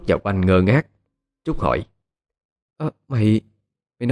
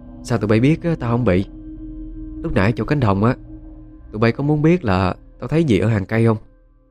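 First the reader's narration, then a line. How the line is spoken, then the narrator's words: Smiling speech. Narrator (Vietnamese): Dung đi phía trước, nghe câu nói của Trúc thì mỉm cười lên tiếng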